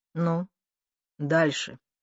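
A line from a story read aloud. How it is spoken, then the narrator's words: Muffled, hollow voice. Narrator (Russian): глухо проговорил он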